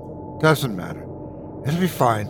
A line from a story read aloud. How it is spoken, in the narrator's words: she said anxiously, still quivering like she was cold